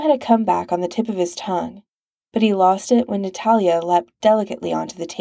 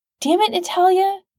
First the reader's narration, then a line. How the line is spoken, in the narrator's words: Sam snapped